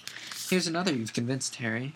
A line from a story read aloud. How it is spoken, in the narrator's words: said Hermione excitedly